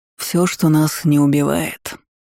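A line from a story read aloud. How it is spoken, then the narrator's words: Sudden mutter. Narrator (Russian): неожиданно пробормотал Суарес, припомнив старую поговорку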